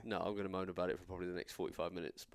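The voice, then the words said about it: Slightly nasal, congested voice. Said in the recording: “I'm actually under the weather ... I'd apologise if my voice sounds a little bit nasally.”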